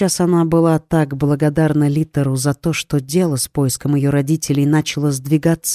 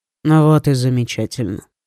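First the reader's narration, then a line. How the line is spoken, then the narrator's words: Dry, curt. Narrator (Russian): сухо бросил Лит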